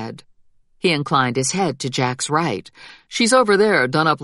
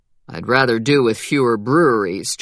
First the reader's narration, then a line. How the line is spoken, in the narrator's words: Jack said flatly